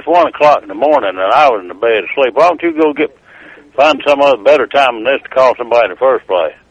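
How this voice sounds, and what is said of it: Thick Tennessee Southern accent. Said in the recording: “Nobody fucking understands you. ... Which accent was that? ... Tennessee. ... That's a ... accent.”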